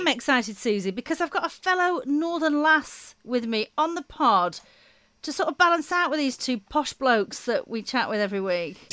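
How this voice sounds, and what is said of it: Lancashire accent. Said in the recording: “that Lancashire accent”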